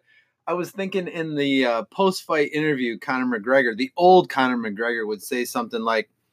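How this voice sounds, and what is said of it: Usual voice. Nothing is said of it.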